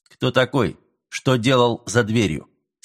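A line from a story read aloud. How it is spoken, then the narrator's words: Sharp. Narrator (Russian): спросил он резко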